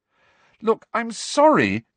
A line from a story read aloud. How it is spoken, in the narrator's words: cried Hermione